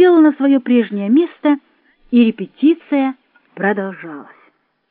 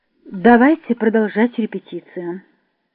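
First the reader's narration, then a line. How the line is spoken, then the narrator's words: Calm. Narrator (Russian): спокойно сказал Поливанов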